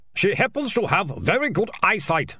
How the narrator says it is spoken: snapped the mare

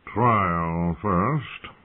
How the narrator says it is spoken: drawled Sir Lynn Corbray

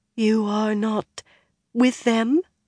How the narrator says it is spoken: Amathera said hesitantly

